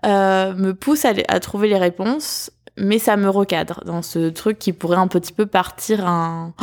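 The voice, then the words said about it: Strong southern French accent. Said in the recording (French): “Oh, mon accent du sud est ultra ressorti sur le un petit peu”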